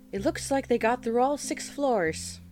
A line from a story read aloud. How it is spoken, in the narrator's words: he exclaimed with eyes wide